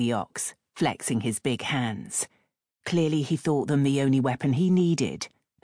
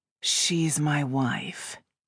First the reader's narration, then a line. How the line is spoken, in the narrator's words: Rose said in a weary tone he hoped would get some sympathy